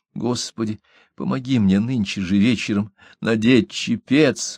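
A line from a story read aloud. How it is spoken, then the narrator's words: Quiet insistent prayer. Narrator (Russian): молилась тихо и настойчиво, хоть без большой надежды быть услышанной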